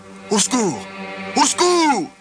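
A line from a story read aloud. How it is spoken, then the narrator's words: Shouting. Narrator (French): cria Yves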